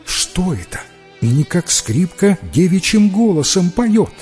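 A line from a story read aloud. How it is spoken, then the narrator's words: Woman's exclamation. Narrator (Russian): Услышала песню жена брата и воскликнула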